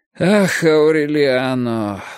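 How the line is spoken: Sighing. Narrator (Russian): вздохнул он

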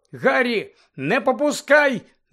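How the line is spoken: Shout. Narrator (Ukrainian): закричала вона

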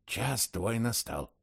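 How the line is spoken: Whispered prompt. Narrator (Russian): шепотом подсказал я

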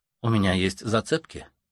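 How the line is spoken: Calm. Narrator (Russian): спокойно произносит Лукреция

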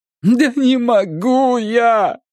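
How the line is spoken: Moaning. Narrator (Russian): простонал Коронцис

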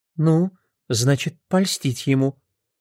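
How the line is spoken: Soft. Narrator (Russian): мягко сказала Фрэн Шайн

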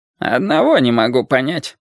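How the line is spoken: Grumbling mutter. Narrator (Russian): пробурчал Пастель Вагнер

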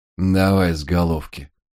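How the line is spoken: Absent-minded mutter. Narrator (Russian): рассеянно буркнул он

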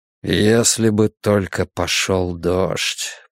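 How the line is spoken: Muffled, through gritted teeth. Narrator (Russian): процедил глухо Брус

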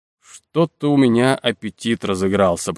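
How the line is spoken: Grumbled. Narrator (Russian): проворчал Крушунович

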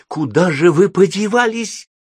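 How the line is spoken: Shouted. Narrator (Russian): закричал он

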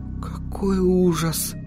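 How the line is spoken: Muttered. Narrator (Russian): пробормотала Сахариса

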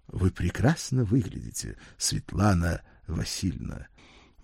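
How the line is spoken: Polished announcer's voice. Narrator (Russian): будто диктор с телеэкрана произнес высокий блондин прекрасно поставленным голосом

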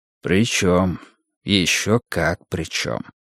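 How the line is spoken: Soft gentle voice. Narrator (Russian): мягко произнес Либей

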